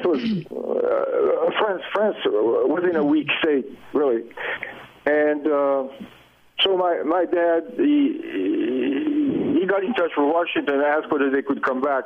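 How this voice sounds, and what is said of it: French-influenced accent. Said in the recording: “So I spent 8 years in France in the school system, whatever. So yeah, that's why I still have an accent”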